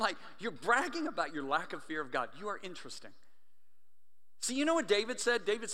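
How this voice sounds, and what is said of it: Usual voice. Nothing is said of it.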